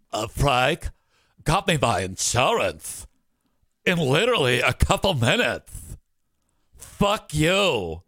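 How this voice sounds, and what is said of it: Imitates another person's voice. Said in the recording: “my impression of Ashley”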